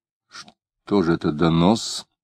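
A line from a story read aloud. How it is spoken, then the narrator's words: Quiet angry question. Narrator (Russian): тихо и сердито спросил Клим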